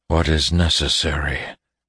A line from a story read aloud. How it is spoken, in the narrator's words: he said softly